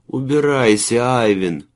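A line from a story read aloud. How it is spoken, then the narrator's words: Muffled moan. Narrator (Russian): простонал он, уткнувшись в мех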